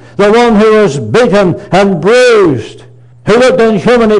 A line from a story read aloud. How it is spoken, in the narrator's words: he cried